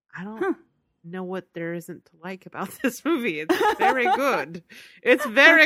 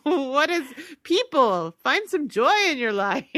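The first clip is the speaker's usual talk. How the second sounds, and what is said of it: Goofy put-on foreign accent. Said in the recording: “Is this your attempt at a Romanian accent? ... I'm just doing a goofy voice. ... these weird accents tonight ... A wacky accent.”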